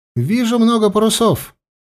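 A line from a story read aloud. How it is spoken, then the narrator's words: Alarmed shout. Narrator (Russian): тревожно крикнул зоркий карасик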